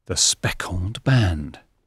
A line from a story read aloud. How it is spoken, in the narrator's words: whispered Holmes